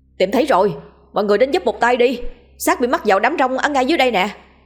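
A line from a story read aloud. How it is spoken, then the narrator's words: Loud call. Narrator (Vietnamese): một người bên dưới trồi lên nói lớn tiếng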